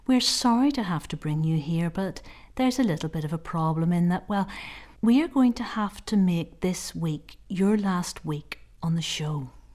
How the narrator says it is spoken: the woman said smoothly

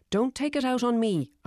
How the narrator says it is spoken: I snapped

